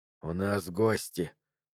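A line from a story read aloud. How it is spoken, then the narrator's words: Quiet. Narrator (Russian): тихо сказал Джо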